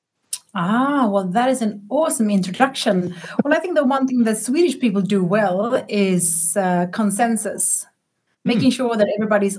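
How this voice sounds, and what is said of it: Swedish accent. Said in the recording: “y'all can hear from her cool accent that she is from Sweden”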